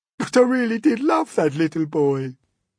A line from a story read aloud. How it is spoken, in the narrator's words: the earthworm sobbed